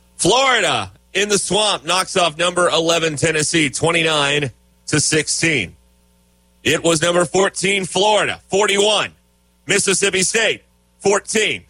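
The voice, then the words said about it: Imitates a scoreboard announcer's voice. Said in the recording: “my Randy Rainwater scoreboard impression”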